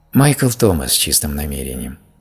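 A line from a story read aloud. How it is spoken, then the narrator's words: Quiet. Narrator (Russian): сказала она тихо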